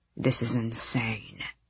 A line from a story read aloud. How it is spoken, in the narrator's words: Tern murmured to Harding